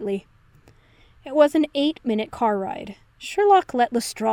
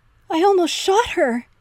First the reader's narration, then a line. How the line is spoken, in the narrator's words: Henry wailed from the dining room